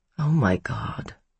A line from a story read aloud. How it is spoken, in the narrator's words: Hannah murmured